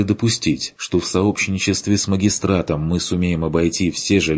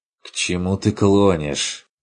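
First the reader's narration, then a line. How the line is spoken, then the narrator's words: Weary sigh. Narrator (Russian): Устало вздохнул Ланс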